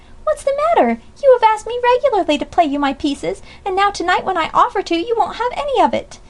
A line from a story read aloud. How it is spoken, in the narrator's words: cried Amy, no little offended